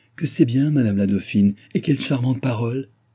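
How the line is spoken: Exclamation. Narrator (French): s'écria André

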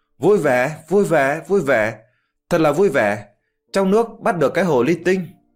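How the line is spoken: Crazed laughing monk. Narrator (Vietnamese): hòa thượng áo xám kia điên điên khùng khùng cười lớn, miệng nói

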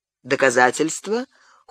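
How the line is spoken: Cold question. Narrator (Russian): холодно спросил граф

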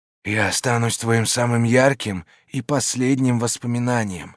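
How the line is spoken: Close whisper. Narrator (Russian): прошептала, склоняясь к моему лицу

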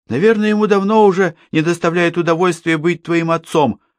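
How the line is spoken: Snapping retort. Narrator (Russian): огрызнулся Эль

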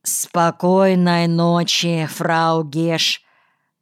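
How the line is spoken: Slow, dreamy. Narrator (Russian): медленно, словно пробудившись от сна, фрау Клуге говорит

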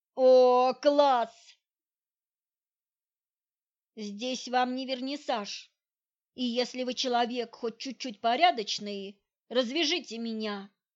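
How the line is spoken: Yelling after gag removed. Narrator (Russian): заорала я, когда он вынул тряпку из моего рта

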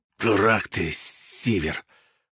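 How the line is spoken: Forced out while coughing. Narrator (Russian): отхаркивая желчь, выдавил

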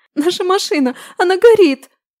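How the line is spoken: Heartbreaking sobbing. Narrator (Russian): такие рыдания душераздирающие

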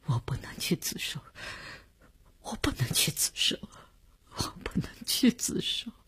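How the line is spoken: Sobbing, near breakdown, repeating. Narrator (Chinese): 李大公哭得悲悲切切，他的精神看上去已经濒于崩溃，只是不停地重复着

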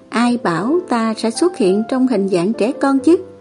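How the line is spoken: Soft scoffing huff. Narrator (Vietnamese): Thương Ngô khẽ hứ một tiếng nói

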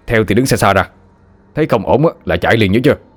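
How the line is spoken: Hesitant, stern. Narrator (Vietnamese): Chú Ba lưỡng lự một lúc rồi gằn giọng

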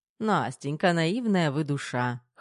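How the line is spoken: Doctor snorting. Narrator (Russian): хмыкнул врач

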